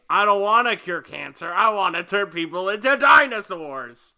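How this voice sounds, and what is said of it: Imitates a comic villain's voice. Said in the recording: “it's a good impression.”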